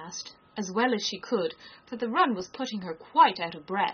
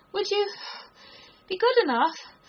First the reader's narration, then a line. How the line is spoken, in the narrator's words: Alice panted out